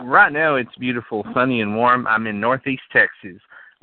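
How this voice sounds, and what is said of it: Texas accent. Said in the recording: “people were talking about your voice ... your accent is authentic. It's where you're from.”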